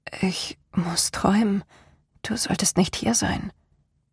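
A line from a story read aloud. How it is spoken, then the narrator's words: Murmured. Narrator (German): murmelte sie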